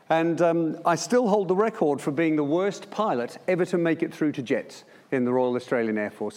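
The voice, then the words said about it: Australian accent. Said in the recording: “As you can tell by my accent, that was in Melbourne.”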